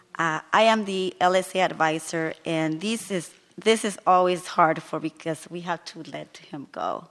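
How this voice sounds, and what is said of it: Hoarse voice from sore throat. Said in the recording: “I have a sore throat”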